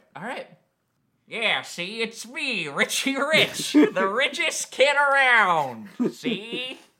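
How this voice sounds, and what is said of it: Impression of cartoon rich kid voice. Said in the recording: “what does Richie Rich talk like? ... your impression ... Do you want to do a do-over?”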